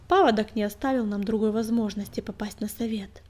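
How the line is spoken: Calm reply. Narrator (Russian): спокойно ответила синяя звезда

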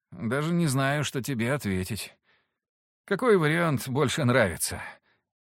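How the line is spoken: Sighing. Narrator (Russian): Вздохнул Алексис

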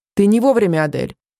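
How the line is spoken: Sharp tone. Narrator (Russian): резким тоном сказал воздушник

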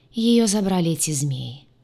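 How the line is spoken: Dejected, sinking voice. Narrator (Russian): произнес упавшим голосом Крейг

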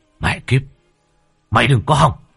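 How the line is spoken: Yelling. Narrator (Vietnamese): Cậu gào lên

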